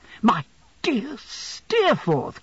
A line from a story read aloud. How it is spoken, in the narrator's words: cried I